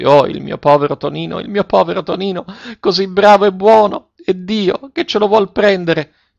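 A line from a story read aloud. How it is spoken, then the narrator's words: Mother bursting into sobs. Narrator (Italian): La madre scoppiò in singhiozzi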